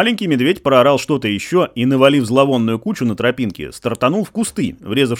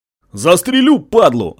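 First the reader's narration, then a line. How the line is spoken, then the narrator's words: Yelling after someone. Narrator (Russian): орал ему вслед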